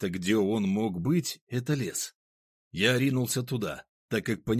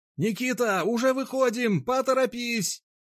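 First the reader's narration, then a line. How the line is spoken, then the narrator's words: Shouted through cupped hands. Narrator (Russian): Соловей, сложив руки в виде рупора, прокричал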